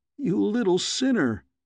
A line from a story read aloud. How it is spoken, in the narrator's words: exclaimed